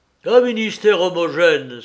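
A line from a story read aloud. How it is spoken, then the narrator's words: Exclaimed. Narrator (French): s'écria Garin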